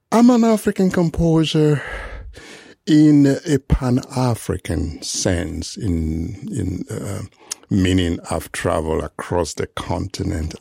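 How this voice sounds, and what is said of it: Foreign immigrant accent. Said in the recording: “you hear it from my accent. It's exactly immigrant”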